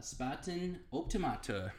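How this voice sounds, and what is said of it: Put-on German accent. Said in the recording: “How was that German accent? That's pretty good.”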